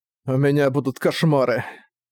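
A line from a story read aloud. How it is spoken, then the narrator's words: Groaned. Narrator (Russian): простонал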